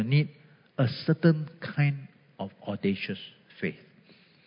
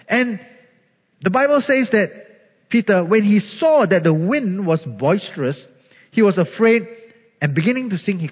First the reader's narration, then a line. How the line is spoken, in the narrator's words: he cried out